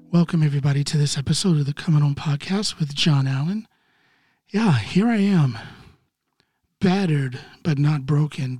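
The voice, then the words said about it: Raspy, hoarse voice. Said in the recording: “You're going to have to excuse my somewhat raspy voice, a little more raspy than normal”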